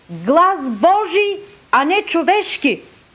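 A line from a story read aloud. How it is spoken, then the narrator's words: Crowd shouting. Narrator (Bulgarian): народът извика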